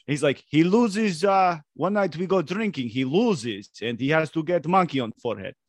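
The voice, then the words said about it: Put-on Russian accent, done well. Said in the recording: “Damn, ... nailed that accent.”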